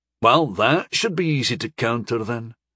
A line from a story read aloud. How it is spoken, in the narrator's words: Rostello muttered sarcastically